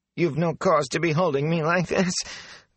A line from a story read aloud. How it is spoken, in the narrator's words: the filthy man whined